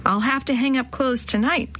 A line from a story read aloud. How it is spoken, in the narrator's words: Ken sighed again